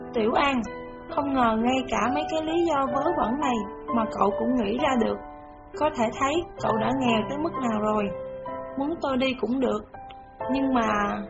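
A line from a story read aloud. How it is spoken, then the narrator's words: Sighing. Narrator (Vietnamese): Bạch Dực thở dài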